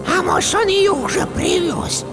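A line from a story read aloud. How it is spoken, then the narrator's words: Shrill old woman's whisper. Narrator (Russian): Шепот старухи оказался еще более визгливым, чем предполагал лейтенант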